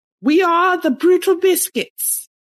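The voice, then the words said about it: Put-on British accent. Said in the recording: “It's a British accent I did once.”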